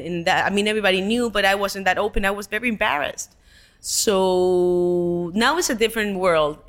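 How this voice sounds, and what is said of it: Spanish-accented English. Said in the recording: “nobody would want to listen to my accent ... accent reduction ... This is my accent, and I'm proud of it”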